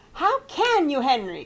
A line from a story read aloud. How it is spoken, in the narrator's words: cried Grandma, delighted that things were warming up